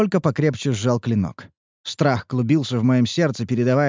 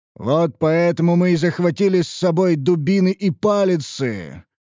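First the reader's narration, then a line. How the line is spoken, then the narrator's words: Growl. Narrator (Russian): прорычал Гробак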